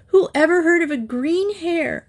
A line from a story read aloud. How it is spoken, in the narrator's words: Cathy cried